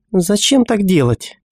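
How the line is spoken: Irritated. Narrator (Russian): раздраженно произнесла Гигги

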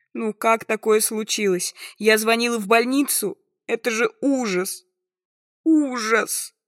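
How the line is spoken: Breaking into sobs. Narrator (Russian): Конец фразы тонет в надрывном рыдании

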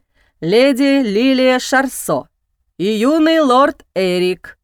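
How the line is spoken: Loud announcement through doorway. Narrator (Russian): громко сообщает в проем

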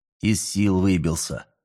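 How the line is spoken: Calm. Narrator (Russian): спокойно произнес Андрея

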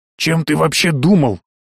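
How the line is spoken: Barked again. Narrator (Russian): В очередной раз гаркнул Сайто

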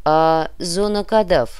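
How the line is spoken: Gloomy question. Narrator (Russian): мрачно спросил де Сент-Каре

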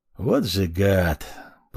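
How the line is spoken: Grumbling under breath. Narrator (Russian): пробурчал себе под нос

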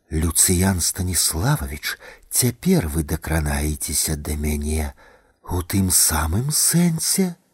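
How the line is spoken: Woman whispering. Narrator (Belarusian): прашаптала жанчына

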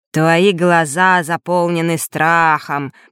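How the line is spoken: Deep bass voice. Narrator (Russian): произнес басом

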